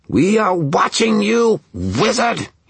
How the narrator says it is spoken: he screamed

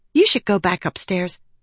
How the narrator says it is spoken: Lift whispered

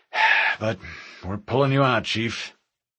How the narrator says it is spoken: He sighed and added

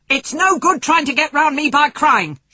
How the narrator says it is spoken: shouted Mr

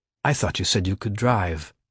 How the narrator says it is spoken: he murmured

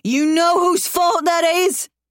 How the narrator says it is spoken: he yells

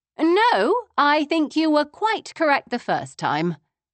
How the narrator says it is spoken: I said cheerfully

